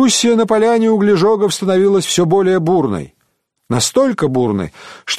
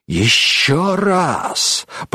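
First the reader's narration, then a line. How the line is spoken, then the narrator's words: Furious hiss. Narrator (Russian): прошипел он яростно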